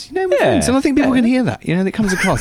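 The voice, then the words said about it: English accent. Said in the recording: “you do it with a lovely accent as well ... The token POM.”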